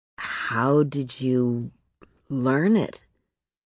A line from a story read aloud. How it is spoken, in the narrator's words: He asked very slowly